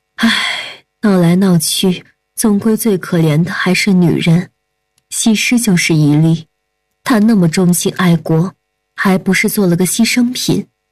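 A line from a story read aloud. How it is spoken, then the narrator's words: Woman sighing. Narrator (Chinese): 夫人叹息一声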